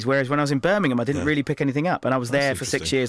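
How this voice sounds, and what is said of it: Southern English accent with Liverpool traces. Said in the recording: “saying words like chance and grass and brass the northern way ... you mix that with the southern accent and it's kind of a strange accent ... I picked up the Liverpool accent really quickly, or I've picked up bits of it”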